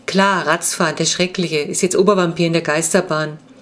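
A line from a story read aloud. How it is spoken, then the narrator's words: Laughing. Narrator (German): lachte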